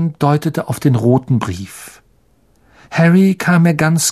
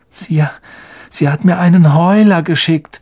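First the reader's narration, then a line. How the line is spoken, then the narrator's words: Weary, faint voice. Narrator (German): sagte Ron mit matter Stimme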